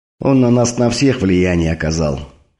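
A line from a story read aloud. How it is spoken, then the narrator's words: Heavy sigh. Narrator (Russian): тяжело вздохнул змей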